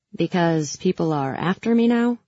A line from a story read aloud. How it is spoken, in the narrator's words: I said sarcastically